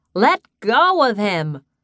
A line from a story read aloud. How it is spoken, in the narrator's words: Tara shouted